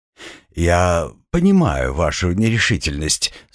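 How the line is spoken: Calm. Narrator (Russian): спокойно произнес Арабат

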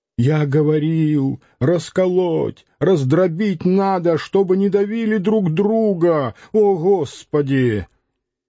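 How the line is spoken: Hoarse shout. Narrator (Russian): Бутафор сипло закричал

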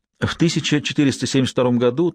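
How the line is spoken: Hurried explanation. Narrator (Russian): торопливо объяснил Лэнгдон Сиене

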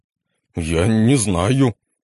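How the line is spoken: Confused mutter. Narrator (Russian): растерянно пробормотал демон

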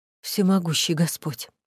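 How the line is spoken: Wounded man muttering. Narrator (Russian): пробормотал раненый

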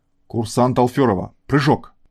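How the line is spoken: Barked, mimicking instructor. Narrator (Russian): рявкнула она сама на себя, подражая инструктору по сверхвысотным парашютным прыжкам

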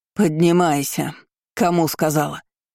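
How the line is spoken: Venomous hiss, crazy woman. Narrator (Russian): Ядовито прошипела чокнутая

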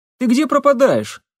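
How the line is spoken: Exclamation. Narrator (Russian): воскликнул Лапшин

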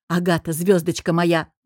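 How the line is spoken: Exclaiming. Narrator (Russian): воскликнул Алекс

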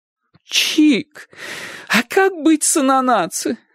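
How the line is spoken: Pleading. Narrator (Russian): взмолилась тетушка

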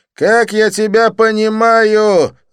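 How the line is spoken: Yelled. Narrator (Russian): заорал он

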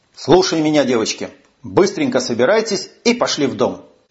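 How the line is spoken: Sharp, shaking with fury. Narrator (Russian): Чувствуя, что от этих мыслей меня начинает трясти, внезапно нахлынувшей яростью, резко сказал

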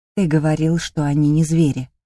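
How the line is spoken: Quiet. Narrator (Russian): тихо сказала я

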